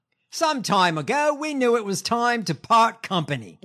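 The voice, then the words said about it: Poor put-on Australian accent. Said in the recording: “In my shitty Australian accent.”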